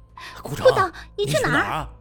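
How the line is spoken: Shouting from behind. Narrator (Chinese): 后面传来温暖和明凡的喊声

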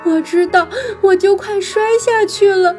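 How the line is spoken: Sobbing. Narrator (Chinese): 弗兰妮抽泣着说

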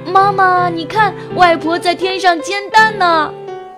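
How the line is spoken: Smiling child. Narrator (Chinese): 他就微笑地说

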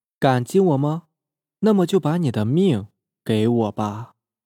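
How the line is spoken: Flat indifferent tone. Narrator (Chinese): 陈培培却是淡淡的说

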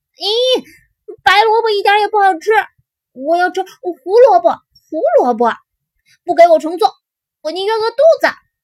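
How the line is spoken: Crying out. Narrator (Chinese): 妈妈就叫了起来

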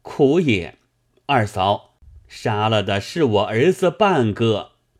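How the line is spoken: Crying out. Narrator (Chinese): 侯兴叫声

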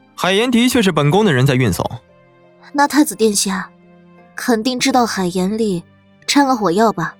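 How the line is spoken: Cold sneer. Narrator (Chinese): 苏黎冷笑

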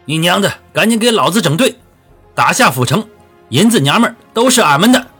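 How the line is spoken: Vicious roar. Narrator (Chinese): 王四顾不得疼痛 恶狠狠地吼道

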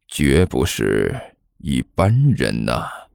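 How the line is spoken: Low mutter. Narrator (Chinese): 齐剑低声嘀咕了一句

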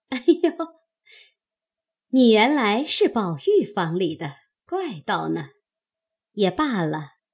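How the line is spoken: Laughing. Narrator (Chinese): 凤姐听了，笑道

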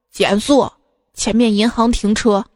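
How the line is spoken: Hoarse voice. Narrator (Chinese): 朋友……用沙哑的声音说

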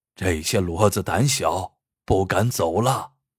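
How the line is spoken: Sighing. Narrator (Chinese): 张才叹了一口气，说

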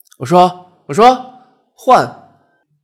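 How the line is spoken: Shouting. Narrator (Chinese): 阿豪喊

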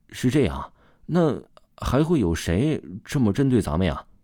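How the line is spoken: Soft muttering. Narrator (Chinese): 左子健轻轻嘀咕了一句

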